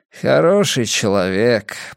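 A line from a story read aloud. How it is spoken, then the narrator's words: Muttered. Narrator (Russian): пробормотал букинист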